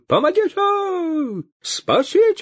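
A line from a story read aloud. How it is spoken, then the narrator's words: Wild panicked wail. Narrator (Russian): Завопил поп не своим голосом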